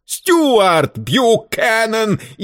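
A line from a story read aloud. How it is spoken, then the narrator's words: Hysterical shriek. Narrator (Russian): истерически взвизгнул Варбек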